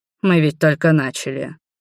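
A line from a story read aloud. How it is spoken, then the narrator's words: Angry grumble. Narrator (Russian): проворчал правящий наместник Освальд, сердито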